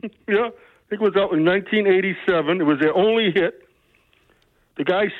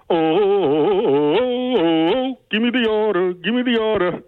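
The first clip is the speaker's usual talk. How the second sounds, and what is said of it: Sung impression of a pop song. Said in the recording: “my impression of Tarzan Boy ... That was pretty good.”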